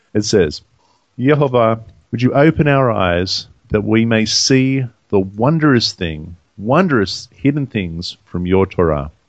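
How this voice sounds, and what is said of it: Funny accent. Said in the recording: “do it with your funny accent ... in my funny accent”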